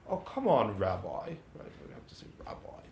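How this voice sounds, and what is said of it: Put-on British accent. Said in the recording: “The person in my mind is always saying with a British accent.”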